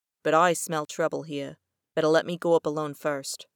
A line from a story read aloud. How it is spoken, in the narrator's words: said softly